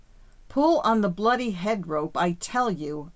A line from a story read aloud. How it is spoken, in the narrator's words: I bellowed at the top of my voice